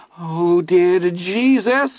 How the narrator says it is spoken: whimpered, his voice high and filled with tears

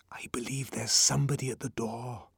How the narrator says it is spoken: he whispered

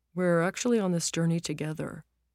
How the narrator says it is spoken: mumbled

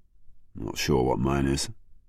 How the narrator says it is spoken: murmured Jackman

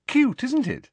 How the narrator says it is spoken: said Cho happily

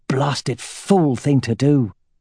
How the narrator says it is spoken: Aragorn muttered, remembering how Roran had left without letting him renew his wards

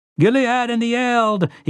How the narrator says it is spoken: he cried

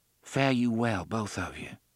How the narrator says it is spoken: she said softly

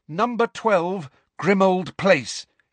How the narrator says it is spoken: Harry said loudly and clearly

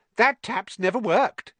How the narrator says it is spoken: said Myrtle brightly

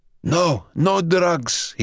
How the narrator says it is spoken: he gasped at once

